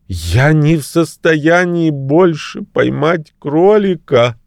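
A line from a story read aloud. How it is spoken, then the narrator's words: Sobbing. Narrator (Russian): рыдал я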